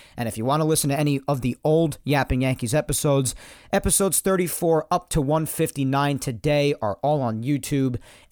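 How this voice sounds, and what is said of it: Raspy voice. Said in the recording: “my raspy-ass voiced self”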